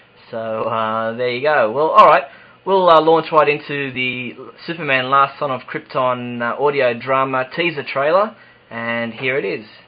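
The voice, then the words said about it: Australian accent. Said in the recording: “I'm in Sydney, Australia, if you couldn't tell from my accent.”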